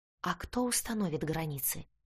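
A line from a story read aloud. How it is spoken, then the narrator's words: Whispered question. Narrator (Russian): почему-то шепотом спросила я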